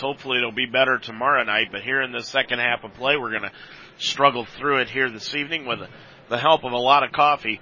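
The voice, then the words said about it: Strained, unwell voice. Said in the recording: “I apologize for my voice. ... keep something warm on my throat”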